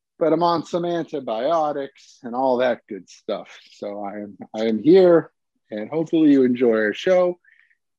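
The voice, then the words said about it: Slightly messed-up, sick-sounding voice. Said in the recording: “battling illness for the past week or so ... I don't know if you can hear it. My voice is a little messed up”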